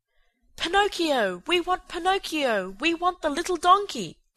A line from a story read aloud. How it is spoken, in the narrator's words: cried the boys from the orchestra, saddened by the accident